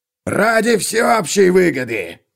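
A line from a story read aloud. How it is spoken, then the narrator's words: Barked. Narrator (Russian): гаркнул он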